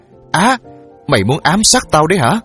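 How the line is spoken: Startled woman yelling. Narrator (Vietnamese): chị nhảy dựng lên la hét

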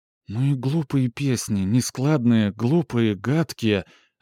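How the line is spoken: Offended timid whisper. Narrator (Russian): обиженно шептала Габриэль, не смея почему-то сказать этого громко

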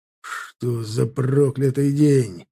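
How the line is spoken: Growled. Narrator (Russian): рычал Копорский

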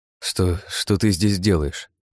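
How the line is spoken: Mumbled. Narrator (Russian): пробормотал я

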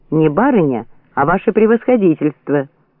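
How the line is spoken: Sharp angry shout. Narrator (Russian): резко прикрикнул Водяга, сердито глядя на солдат

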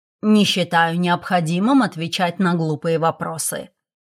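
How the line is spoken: Growl. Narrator (Russian): рыкнул

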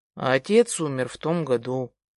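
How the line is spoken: Sad. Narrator (Russian): отвечает Артем грустно

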